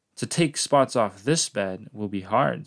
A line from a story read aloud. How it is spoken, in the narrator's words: said the cat